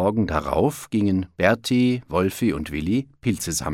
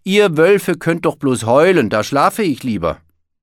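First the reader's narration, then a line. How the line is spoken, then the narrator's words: Calling out. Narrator (German): rief Berti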